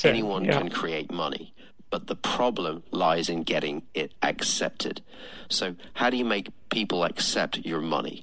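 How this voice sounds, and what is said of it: British accent. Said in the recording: “with that awesome British accent, he sounds more intelligent than me”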